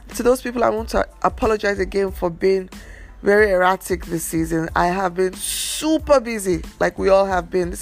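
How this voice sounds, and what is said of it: Slightly hoarse voice. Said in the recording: “tell my voice is even a bit hoarse.”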